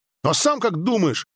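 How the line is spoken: Boy snapping, less offended. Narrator (Russian): огрызнулся мальчишка, но уже с меньшей обидой

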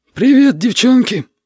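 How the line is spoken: Wheezy rasp. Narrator (Russian): просипел Витя

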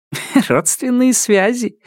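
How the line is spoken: Giggle. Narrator (Russian): хихикнул Робин

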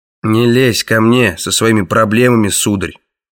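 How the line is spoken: Grumbling. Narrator (Russian): пробурчал Краннан

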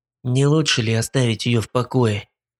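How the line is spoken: Hissing. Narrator (Russian): прошипел Шнайдер

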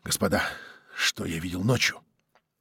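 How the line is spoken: Whisper. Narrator (Russian): сказал шепотом

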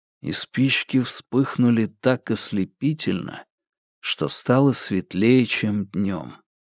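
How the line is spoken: Quiet, slow voice. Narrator (Russian): букинист тихо и медленно произнес

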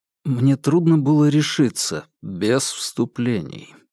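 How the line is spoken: Quiet. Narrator (Russian): тихо сказал капитан

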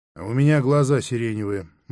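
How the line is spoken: Gloomy, woman. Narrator (Russian): мрачно сказала Дарина

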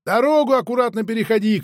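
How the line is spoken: Shouting after someone. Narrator (Russian): крикнул я вслед

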